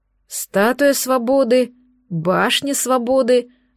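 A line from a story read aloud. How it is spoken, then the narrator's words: Drawn out, smiling. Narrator (Russian): с улыбкой протянула я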